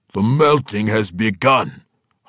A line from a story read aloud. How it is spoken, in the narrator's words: Hartusk growled